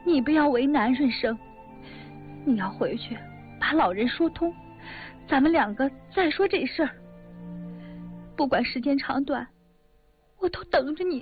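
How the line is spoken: Crying while speaking. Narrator (Chinese): 红梅在他怀里一边哭着一边说

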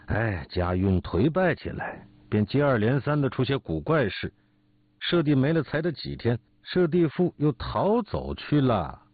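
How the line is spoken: Sighing. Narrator (Chinese): 景逸叹口气说

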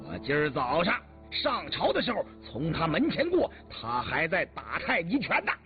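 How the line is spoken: Angry shout. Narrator (Chinese): 云指怒喝了一声

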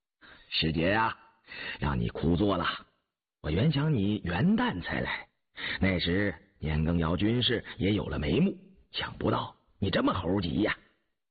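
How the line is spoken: Laughing. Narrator (Chinese): 张廷玉笑道

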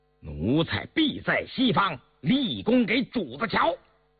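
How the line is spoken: Loud reply. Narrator (Chinese): 年羹尧大声答应道

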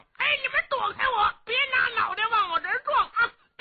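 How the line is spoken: Yelling while running. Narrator (Chinese): 李元霸…一边跑一边嚷

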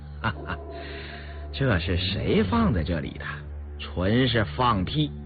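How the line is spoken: Forced calm laugh. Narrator (Chinese): 刘墨林强自镇定地笑道

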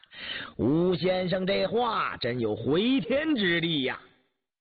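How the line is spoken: Laughing. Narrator (Chinese): 范时杰点头笑道

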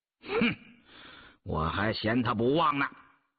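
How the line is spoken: Frenzied, through gritted teeth. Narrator (Chinese): 印提狂躁地咬牙说道

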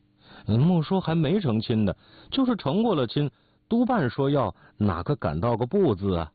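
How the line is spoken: With a smile. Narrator (Chinese): 笑了一笑

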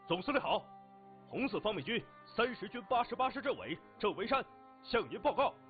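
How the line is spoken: Loud voice. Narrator (Chinese): 郑维山大声说

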